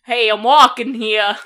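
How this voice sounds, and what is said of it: Put-on New York accent, Boston-ish. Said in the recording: “give me your best New York accent ... that wasn't bad ... that might be a little bit into the Boston area”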